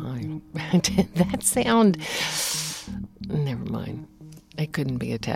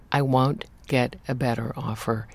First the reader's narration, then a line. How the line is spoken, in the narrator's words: he said firmly